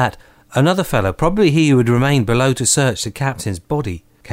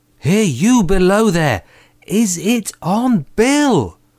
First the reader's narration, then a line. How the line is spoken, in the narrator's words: cried the blind man again